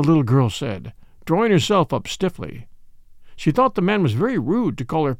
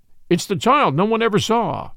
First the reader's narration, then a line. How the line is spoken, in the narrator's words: exclaimed the man